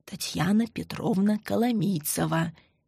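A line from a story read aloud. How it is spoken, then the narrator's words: Quiet prompting. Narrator (Russian): тихо подсказала Мария Ивановна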